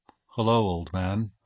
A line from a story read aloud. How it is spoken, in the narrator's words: I murmured in a death bedside voice